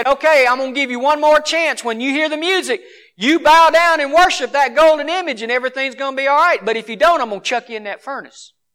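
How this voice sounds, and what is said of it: Southern accent. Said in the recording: “Nebuchadnezzar, king of Babylon, had a southern accent.”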